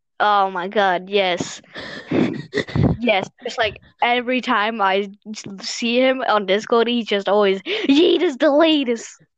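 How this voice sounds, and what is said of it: Mixed British and Lithuanian accent. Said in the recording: “that accent... I have a British Lithuanian accent... a mix of a British and a Lithuanian”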